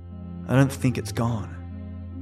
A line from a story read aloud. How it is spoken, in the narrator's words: he said quietly